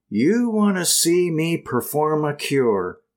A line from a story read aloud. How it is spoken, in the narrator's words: cried Mary Baker with a flash of her clear eyes